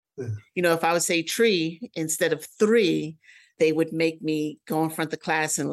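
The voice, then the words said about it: New York accent. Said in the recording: “I hear your New York accent.”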